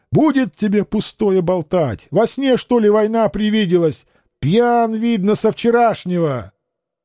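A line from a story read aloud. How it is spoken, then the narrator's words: Angry shout. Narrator (Russian): Царевна Наталья, запылав гневным лицом, крикнула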